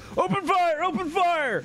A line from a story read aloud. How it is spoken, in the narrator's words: yell